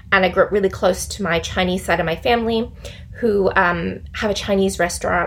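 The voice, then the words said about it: American accent with Australian influence. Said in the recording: “some of you might be a bit uncertain where my accent is from. If you can't tell, I grew up in the US. I'm American, but I moved to Australia almost 20 years ago.”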